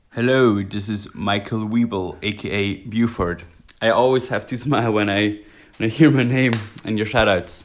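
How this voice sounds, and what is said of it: Noticeable accent. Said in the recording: “your accent is the best thing”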